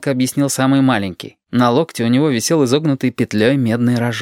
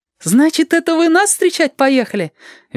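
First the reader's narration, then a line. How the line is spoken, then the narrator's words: Cheerful surprise. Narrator (Russian): весело удивился Женька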